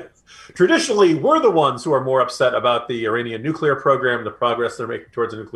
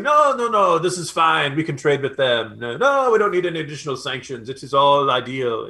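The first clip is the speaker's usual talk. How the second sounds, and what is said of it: Bad put-on French accent. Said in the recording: “that's my very bad French accent there”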